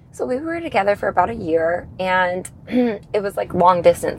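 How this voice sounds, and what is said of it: Hoarse voice. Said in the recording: “my voice is so hoarse.”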